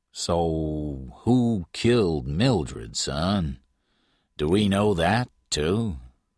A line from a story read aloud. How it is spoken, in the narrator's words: Patton said slowly